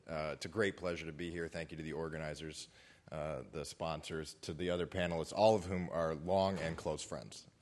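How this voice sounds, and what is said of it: Voice affected by a cold. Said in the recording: “forgive my voice. I've got a little bit of a cold.”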